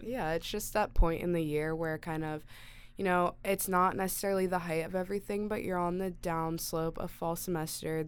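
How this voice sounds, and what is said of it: Voice sounds under the weather. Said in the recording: “if you can't tell by my voice, I'm feeling the effects of that”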